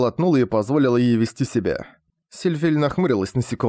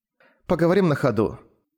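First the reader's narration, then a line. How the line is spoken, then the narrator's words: Gloomy suggestion. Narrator (Russian): мрачно предложила она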